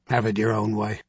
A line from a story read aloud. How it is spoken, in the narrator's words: he grunted, as if it were a matter of no importance